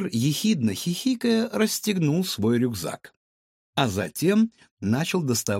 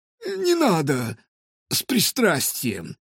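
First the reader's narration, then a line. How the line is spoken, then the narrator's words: Wheezy, hoarse. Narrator (Russian): просипел он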